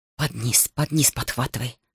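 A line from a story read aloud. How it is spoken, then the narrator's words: Whisper. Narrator (Russian): шептал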